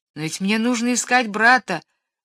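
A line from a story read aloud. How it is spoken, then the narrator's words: Boy exclaiming. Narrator (Russian): воскликнул мальчик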